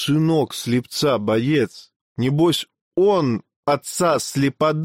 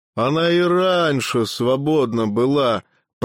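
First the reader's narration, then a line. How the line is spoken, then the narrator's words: Grumbling. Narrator (Russian): проворчал купец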